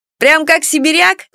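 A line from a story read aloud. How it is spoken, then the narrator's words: Flattered laughter. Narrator (Russian): смеялся польщенный Эдик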